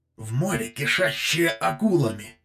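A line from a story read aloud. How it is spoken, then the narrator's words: Hissed. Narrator (Russian): прошипел Люкориф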